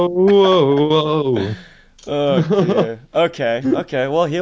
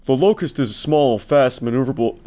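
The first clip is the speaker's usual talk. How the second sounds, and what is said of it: Imitates another person's accent. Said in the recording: “I'm not going to try and copy his accent. It would be impossible for me. Oh, man, no, actually, let me try... that's him. That's actually pretty good.”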